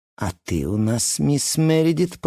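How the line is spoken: Purring female voice. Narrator (Russian): промурлыкала Гвендолин

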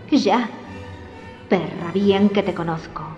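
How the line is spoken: Muttering. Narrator (Spanish): masculló Jack

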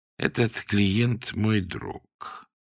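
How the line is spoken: Calm explanation. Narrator (Russian): пояснил спокойно

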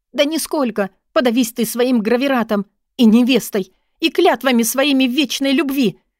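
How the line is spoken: Tearful shout. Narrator (Russian): Я выкрикнула и почувствовала, как по щекам текут слезы, жгучие, как самая ядреная кислота

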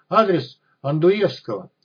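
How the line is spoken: Man shouting out. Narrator (Russian): мужичок выкрикнул

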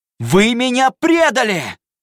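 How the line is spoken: Shouting. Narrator (Russian): закричал

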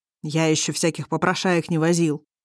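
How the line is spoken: Grumbling. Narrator (Russian): проворчал

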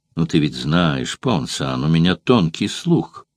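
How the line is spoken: Calm but menacing. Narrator (Russian): промолвил Сулла спокойно, но грозно нахмурив при этом брови

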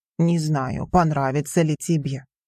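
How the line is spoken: Embarrassed deep voice. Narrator (Russian): смущенно пробасил Густав

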